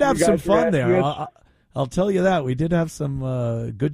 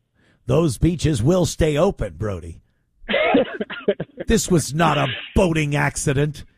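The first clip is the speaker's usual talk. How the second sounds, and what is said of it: Impression of a movie mayor character. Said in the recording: “great Mayor of Amity impression.”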